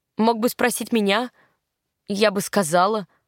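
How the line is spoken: Grumbling. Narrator (Russian): проворчала я

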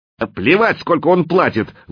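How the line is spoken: Shouted out. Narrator (Russian): выкрикнул Филин

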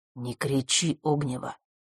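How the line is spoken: Quiet voice. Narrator (Russian): сказал он тихим голосом

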